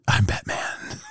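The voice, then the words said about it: Whispered Batman voice. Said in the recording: “How'd you like my Batman? ... All you're doing is whispering. ... But there's no difference.”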